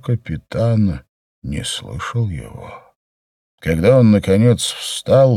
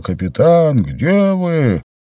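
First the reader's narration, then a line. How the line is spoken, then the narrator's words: Shouting. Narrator (Russian): Давно уже Ледька кричал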